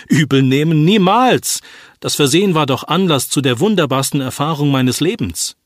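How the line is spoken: Patient calling out. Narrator (German): rief der Patient

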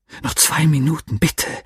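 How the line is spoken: Annoyed whisper. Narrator (German): flüsterte ich ungehalten

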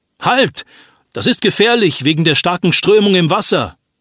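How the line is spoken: Warning shout. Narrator (German): ruft jemand

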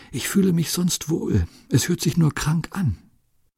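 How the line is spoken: Barely audible whisper. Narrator (German): Sie können gerade noch flüstern

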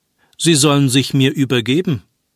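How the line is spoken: Plain answer. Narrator (German): antwortete Dalton

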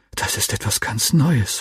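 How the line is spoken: Whisper. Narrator (German): flüsterte ich meinem Freund zu

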